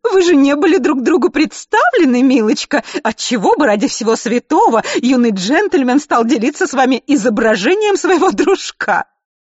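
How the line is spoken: Mock British accent. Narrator (Russian): карикатурный британский акцент

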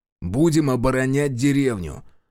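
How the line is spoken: Snapping retort. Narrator (Russian): огрызнулся Решетов

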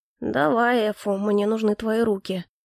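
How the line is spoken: Quiet. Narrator (Russian): негромко произнес Калипсо

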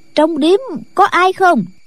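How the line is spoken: Loud question. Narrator (Vietnamese): Trịnh Ngạc lớn tiếng hỏi

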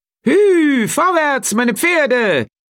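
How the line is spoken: Calling down from coach box. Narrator (German): rief er von seinem Kutschbock herab

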